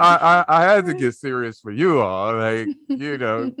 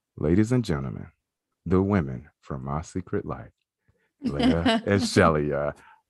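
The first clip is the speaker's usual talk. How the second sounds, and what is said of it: Serious podcast-host announcer voice. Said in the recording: “that podcast voice is just like, ooh, this is getting serious in here”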